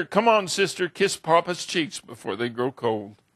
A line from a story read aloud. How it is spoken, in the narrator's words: sobbed and said